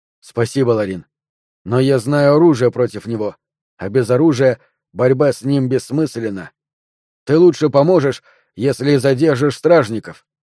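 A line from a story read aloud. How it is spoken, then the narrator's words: Plain. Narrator (Russian): сказал я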